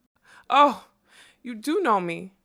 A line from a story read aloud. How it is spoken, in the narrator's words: she cried, and the breath of her delight